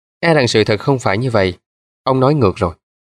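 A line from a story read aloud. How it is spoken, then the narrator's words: Cold. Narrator (Vietnamese): Wilson lạnh lùng nói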